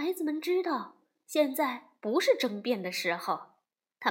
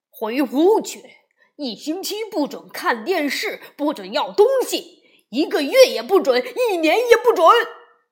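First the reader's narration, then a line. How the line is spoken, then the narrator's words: Roaring angrily. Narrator (Chinese): 熊爸爸咆哮起来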